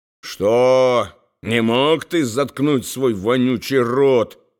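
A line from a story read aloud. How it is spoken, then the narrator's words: Muttered from behind. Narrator (Russian): бормотал Бойди за спиной у поэта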